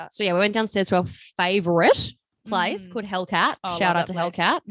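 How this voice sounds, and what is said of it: New Zealand accent. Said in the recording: “Two beers and the wings and the little Kiwi accent comes out.”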